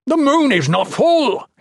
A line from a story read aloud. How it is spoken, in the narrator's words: he yelled defensively